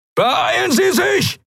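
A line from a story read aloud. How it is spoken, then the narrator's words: Shouted. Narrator (German): schrie Helios in den Kubus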